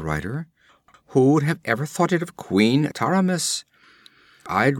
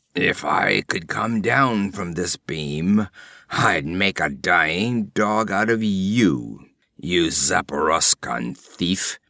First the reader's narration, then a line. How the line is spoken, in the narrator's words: he rasped through blackened lips